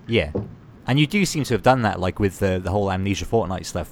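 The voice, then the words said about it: Speaks with a regional accent. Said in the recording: “It's just my accent.”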